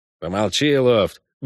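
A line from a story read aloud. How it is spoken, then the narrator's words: Gruff mutter. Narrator (Russian): буркнул в его сторону Шуйский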